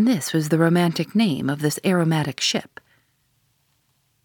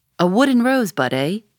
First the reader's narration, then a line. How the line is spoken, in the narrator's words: he cried